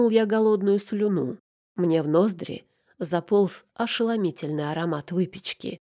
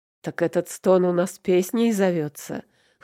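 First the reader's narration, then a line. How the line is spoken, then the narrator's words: Chuckling. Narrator (Russian): хохотнул я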